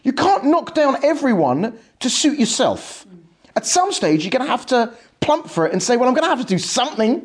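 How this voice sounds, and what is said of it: Essex English accent. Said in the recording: “has a weird Essex accent... because I have a weird Essex accent.”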